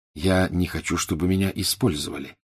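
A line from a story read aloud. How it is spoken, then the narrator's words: Plain. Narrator (Russian): ответил Гарри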